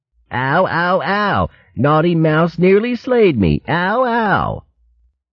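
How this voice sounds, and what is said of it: Whining mocking imitation of another's voice. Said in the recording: “his impression of the whining vermin”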